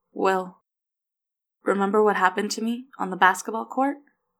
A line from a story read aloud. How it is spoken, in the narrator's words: Leo asked, his voice shaky